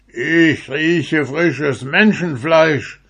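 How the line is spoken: Giant's roar. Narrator (German): brüllte der Riese

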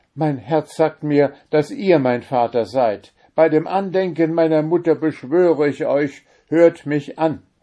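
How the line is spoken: Crying out while weeping. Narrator (German): Weinend rief er dem Fürsten zu

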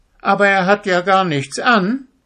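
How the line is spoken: Small child calling out. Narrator (German): rief ein kleines Kind

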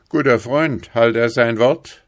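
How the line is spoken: Sergeant calling. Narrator (German): rief der Wachtmeister

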